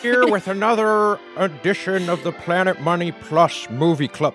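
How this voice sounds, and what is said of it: Jimmy Stewart impression sounding like Dr. Evil. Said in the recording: “doing a Jimmy Stewart impression ... It's more Dr. Evil than Jimmy Stewart.”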